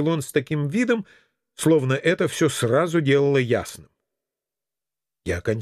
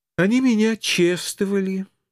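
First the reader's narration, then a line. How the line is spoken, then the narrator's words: Sighing, slow, deliberate explaining. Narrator (Russian): вздохнув, начала пояснять жертва, значимо и четко разделяя слова, как самому тупому троллю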